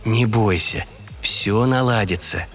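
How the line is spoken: Tender whisper. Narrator (Russian): ласково прошептал Николай

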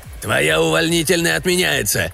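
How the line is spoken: Harsh bark, colonel. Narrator (Russian): рявкнул полковник

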